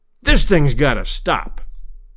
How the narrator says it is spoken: he thundered

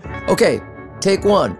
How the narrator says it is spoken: I shouted

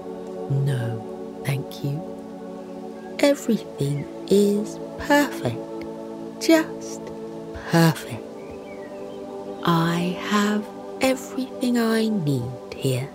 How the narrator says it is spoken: smiles softly, and says

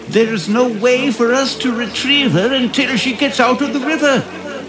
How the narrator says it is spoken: yelled another

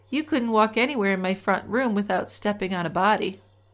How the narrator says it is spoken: chuckled and said

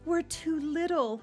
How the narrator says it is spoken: moaned

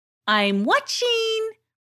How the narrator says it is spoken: she called out

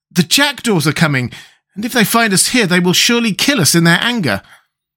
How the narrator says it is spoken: as the sound grew nearer to them, Tip exclaimed

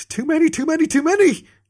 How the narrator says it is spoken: Jorgensen panted

